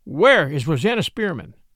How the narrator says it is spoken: asked Sergeant Cuff

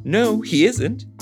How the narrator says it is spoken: she said very sweetly

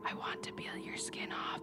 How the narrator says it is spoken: She whispered

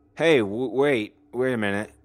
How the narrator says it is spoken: Jared said in his drunken stammer

